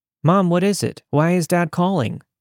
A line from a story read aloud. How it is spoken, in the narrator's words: I asked